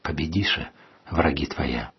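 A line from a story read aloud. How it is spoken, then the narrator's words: Quiet. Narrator (Russian): тихо сказал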